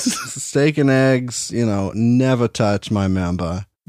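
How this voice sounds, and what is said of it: Put-on Boston accent. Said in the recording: “instead of doing a southern accent, I go Boston every time.”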